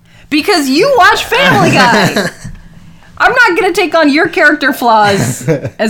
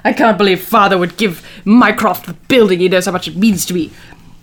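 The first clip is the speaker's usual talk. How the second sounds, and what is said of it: Put-on British accent. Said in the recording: “sound to you a bit like Stewie Griffin? ... my ability to do accents ... evil British”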